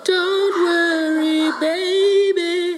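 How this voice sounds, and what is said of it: Sung in falsetto. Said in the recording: “Do you want me to do the falsetto part?”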